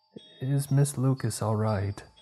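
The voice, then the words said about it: Small, childlike voice. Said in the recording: “asked in a little voice”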